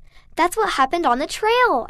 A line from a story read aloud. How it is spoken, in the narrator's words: blurted out